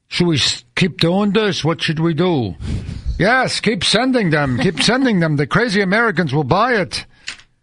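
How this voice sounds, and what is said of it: Put-on vague Eastern European accent. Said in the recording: “There's some guy in Bulgaria going ... I don't know what accent that was.”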